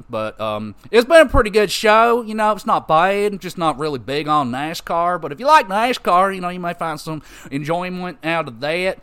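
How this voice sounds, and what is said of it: Put-on Southern drawl. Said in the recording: “I start talking like I'm from the southern states ... I'll stop the Southern drawl thing now.”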